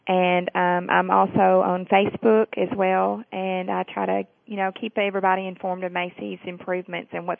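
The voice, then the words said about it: Southern US accent. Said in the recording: “I apologize for my southern accent.”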